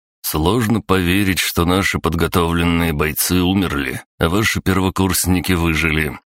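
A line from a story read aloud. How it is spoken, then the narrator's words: Calm interjection. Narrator (Russian): спокойным голосом вставил майор Сидор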